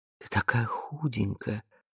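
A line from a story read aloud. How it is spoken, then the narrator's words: Hoarse passionate aching whisper. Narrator (Russian): прошептал голосом, хриплым от страсти и еще чего-то нового, боли, тоски, признания изменений, произошедших в его отсутствии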